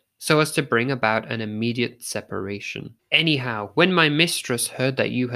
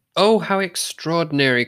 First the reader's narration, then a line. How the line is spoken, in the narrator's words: cried Shinzaburo